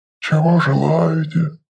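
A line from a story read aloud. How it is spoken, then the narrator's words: Soft low hum, shopkeeper. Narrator (Russian): мягко прогудел Лофкрак, хозяин магазина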